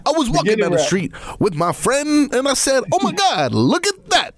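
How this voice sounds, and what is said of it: Imitates a rapper's rhythmic cadence. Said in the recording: “That's my impression. ... it had, like, a certain cadence all of his songs.”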